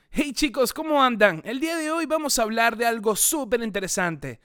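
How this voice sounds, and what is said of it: YouTube channel presenter voice. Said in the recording (Spanish): “Voy a hacer una voz de estos canales de YouTube ... esa voz de”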